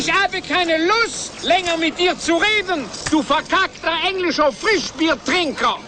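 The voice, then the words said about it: Exaggerated French accent in German. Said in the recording (German): “Wir sind Franzosen. Woher hätte ich sonst diesen dämlichen ... Akzent?”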